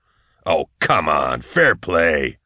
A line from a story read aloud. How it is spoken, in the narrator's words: Nail growled